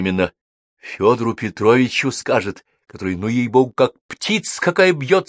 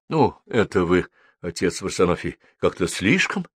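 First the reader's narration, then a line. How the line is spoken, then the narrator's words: Embarrassed mumble. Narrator (Russian): краснел, бормотал Федор Петрович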